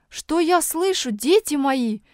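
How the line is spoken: Exclamation. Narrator (Russian): воскликнул Петерс-старший

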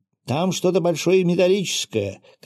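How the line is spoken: Man shouting. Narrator (Russian): крикнул пермяк

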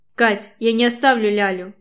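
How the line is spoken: Barely suppressed growl. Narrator (Russian): Стараюсь не рычать, но выходит плохо

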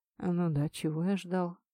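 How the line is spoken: Mutter. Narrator (Russian): пробормотал Лисухен

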